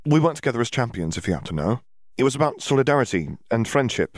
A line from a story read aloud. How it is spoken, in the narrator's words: said, hoping that her tone sounded more confident to Skeeter's ears than to her own